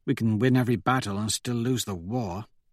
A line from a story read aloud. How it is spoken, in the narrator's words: Severo mutters